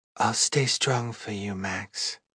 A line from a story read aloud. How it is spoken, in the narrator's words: Fia whispered like a prayer